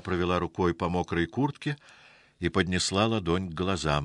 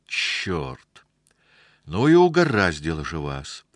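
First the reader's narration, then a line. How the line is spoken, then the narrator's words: Exasperated exclamation. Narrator (Russian): в сердцах воскликнула она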